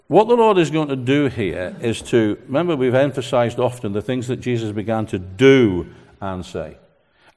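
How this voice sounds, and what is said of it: Scottish accent. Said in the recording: “despite this accent, the Gaelic blood that flows through these veins ... I'm the most thoroughbred Scot in the place”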